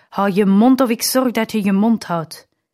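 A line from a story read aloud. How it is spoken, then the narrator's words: Father shouting. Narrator (Dutch): de vader schreeuwt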